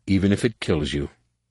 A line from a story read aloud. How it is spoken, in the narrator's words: Jason said sadly